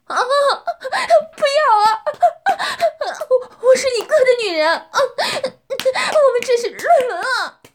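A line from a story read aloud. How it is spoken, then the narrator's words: Tearful cry. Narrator (Chinese): 女人带着哭腔叫道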